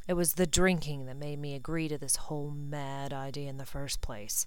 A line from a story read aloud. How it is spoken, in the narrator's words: he muttered